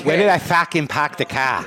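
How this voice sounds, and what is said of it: Put-on Boston accent. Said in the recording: “That's my best Boston accent.”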